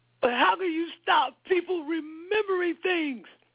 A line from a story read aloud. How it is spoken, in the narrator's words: cried Winston